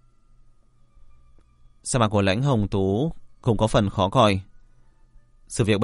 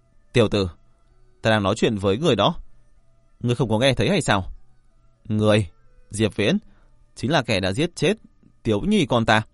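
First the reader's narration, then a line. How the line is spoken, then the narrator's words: Angry. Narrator (Vietnamese): Hàn Đồng Quân tức giận nói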